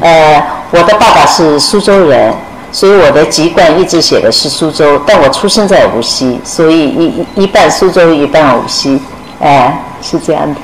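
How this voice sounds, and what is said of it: Mandarin with a Shanghai accent. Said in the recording (Chinese): “口音已经完全是上上海口音”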